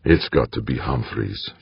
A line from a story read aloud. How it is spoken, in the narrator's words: Fuchs muttered, as much to himself as his companion